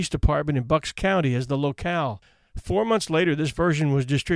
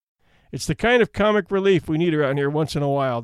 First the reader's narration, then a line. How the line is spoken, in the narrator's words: the judge laughed